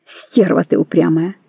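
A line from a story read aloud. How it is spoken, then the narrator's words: Sad. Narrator (Russian): сказал он грустно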